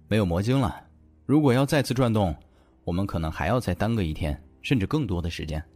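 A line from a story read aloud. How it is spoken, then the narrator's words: Deep, grave voice. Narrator (Chinese): 叶钟明……沉声道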